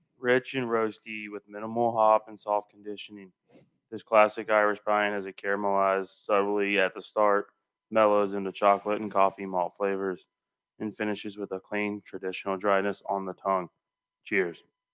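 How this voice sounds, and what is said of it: Monotone droning teacher voice. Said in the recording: “you going monotone on this? ... I'm trying to do like the teacher from Ferris Bueller's Day Off.”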